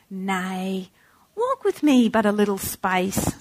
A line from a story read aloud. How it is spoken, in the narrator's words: said with a kindly air